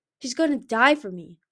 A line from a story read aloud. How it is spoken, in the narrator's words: Albatross roared, a sound of pure rage and hatred